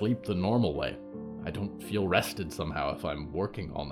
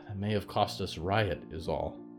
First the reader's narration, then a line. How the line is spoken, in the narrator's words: Brooklyn sighed